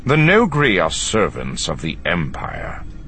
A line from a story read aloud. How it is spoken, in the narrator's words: Thrawn countered coldly